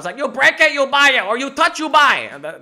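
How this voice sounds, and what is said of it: Stereotyped put-on accent. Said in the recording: “That's like a really racist accent”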